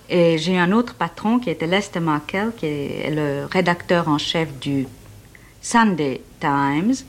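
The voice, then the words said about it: French spoken with American accent. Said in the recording (French): “notre accent américain”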